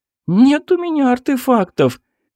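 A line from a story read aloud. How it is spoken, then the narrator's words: Whiny voice. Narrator (Russian): Хнычущим голосом произнесла Марина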